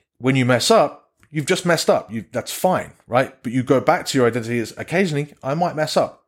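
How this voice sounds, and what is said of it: English accent. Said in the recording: “I'm losing my English accent day by day”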